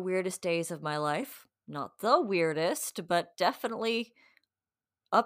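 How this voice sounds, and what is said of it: Usual voice. Nothing is said of it.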